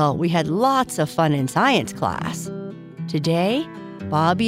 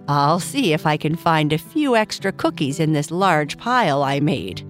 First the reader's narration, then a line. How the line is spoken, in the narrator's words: Papa Bear said, laughing